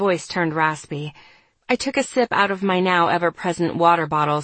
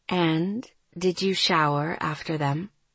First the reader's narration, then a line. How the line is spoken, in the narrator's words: she asked gently